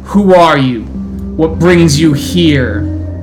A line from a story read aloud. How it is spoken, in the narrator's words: The howls beckon out